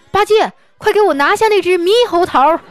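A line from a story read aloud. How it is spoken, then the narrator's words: Sudden loud shout. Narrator (Chinese): 唐僧突然大喊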